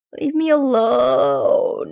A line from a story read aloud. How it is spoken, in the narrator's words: moans a guy on a gurney